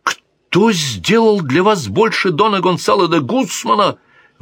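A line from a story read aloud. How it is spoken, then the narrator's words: Exclaimed. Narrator (Russian): воскликнул верный друг Сида, дон Кутерье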